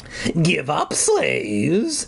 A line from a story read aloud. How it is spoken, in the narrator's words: he rasped